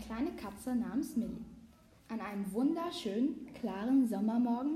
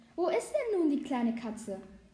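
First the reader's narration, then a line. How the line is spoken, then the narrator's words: Excited girl's voice. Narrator (German): die Stimme eines Mädchens sagte, aufgeregt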